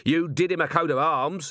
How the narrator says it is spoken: he shouted

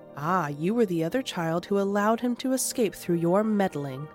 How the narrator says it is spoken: Melville said coldly

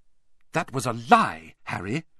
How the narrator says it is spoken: said Hermione sharply

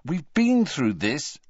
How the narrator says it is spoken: said Harry crossly

